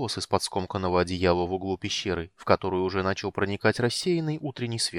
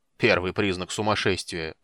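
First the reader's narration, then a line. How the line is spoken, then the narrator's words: Grumbling. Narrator (Russian): проворчал гном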